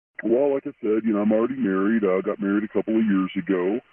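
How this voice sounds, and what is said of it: Electronically disguised voice. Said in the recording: “the voice changer is on”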